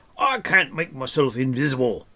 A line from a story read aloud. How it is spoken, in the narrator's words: snorted